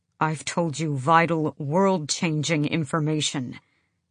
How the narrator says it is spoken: Kaol said through his teeth

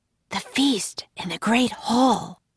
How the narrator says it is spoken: whispered Jack

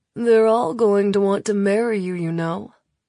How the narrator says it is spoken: Locke drawls

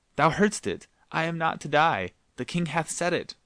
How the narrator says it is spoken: he turned a joyful face toward the two lords in waiting, and exclaimed

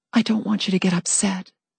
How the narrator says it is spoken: I said softly

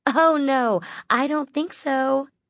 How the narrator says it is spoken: Midnight laughed, clearly pleased that her teasing had some effect

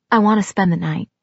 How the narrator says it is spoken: he said gently

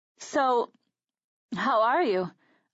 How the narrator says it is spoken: I asked, my voice cracking slightly

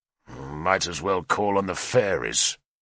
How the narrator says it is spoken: Keelup growled to me

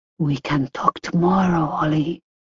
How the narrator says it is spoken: whispering

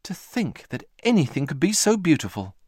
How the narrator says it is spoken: exclaimed Moomin Mama

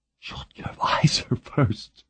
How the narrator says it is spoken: said tenderly

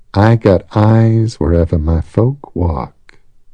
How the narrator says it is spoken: breathed a voice in the back of Shadow's mind

